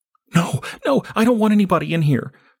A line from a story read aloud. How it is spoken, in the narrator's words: the girl pleaded